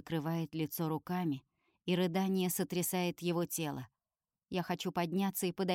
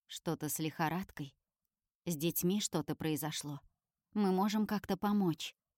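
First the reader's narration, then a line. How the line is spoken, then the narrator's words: Quiet question. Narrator (Russian): тихо спрашивает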